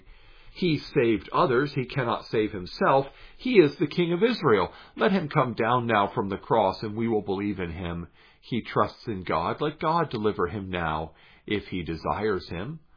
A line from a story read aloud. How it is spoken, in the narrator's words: the chief priests with the scribes and elders mocked him, saying